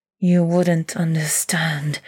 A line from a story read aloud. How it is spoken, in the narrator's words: hisses